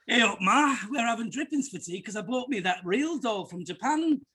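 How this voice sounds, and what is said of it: Put-on Yorkshire accent. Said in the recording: “you always do that in a Yorkshire accent”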